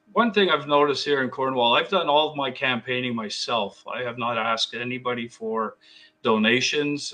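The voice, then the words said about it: Slightly hoarse voice. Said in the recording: “I'm a little hoarse today from a bit of barking that I do at the referees”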